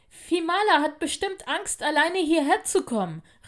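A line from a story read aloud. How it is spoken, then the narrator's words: Called out. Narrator (German): rief Henry in der Pause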